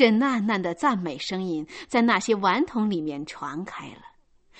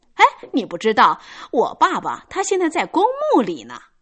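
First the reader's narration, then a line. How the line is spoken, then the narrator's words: Proud loud child. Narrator (Chinese): 那个孩子带着一种极其神气的骄傲神情，大声的说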